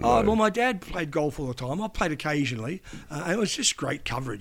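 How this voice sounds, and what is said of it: Australian accent. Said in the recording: “somebody hears my accent ... Aussie ... I'm a young Aussie journo”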